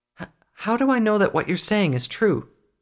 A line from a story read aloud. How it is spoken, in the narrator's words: She stammered